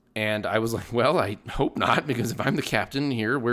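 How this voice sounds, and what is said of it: Usual voice. Nothing is said of it.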